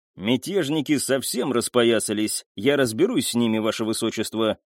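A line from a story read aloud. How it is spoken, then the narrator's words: Stern promise. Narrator (Russian): суровым голосом пообещал Джангир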